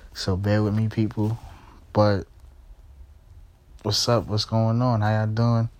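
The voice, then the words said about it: Tired-sounding voice. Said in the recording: “I sound a little tired”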